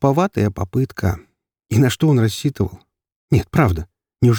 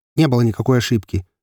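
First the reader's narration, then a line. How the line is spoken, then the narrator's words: Sharp. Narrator (Russian): резко произнес Станислав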